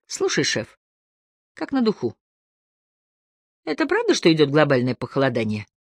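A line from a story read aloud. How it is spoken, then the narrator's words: Loud mock-confidential tone. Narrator (Russian): конфиденциальным тоном, так что услышать его мог разве что одинокий официант в другом конце ресторана, сказал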